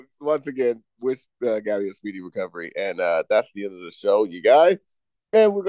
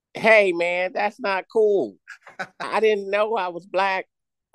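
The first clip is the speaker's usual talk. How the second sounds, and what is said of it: Cartoon character voice impression. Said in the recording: “Oh, Cleveland. ... how'd you know I was Cleveland? ... A white guy does my voice.”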